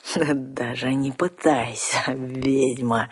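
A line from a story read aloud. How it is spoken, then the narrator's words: Gloating hiss. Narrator (Russian): со злорадным торжеством прошипел разбойник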